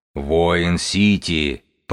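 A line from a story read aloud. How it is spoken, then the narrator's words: Booming drone. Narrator (Russian): прогудела Сибилла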